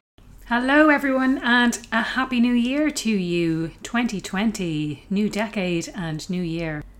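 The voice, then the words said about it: Voice still sounds sick. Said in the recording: “I've been sick for the last few weeks and you can probably still hear it in my voice.”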